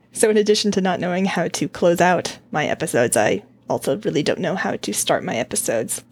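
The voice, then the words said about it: Sick, slightly impaired voice. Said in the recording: “I am still sick, so pardon my voice, it's not 100%”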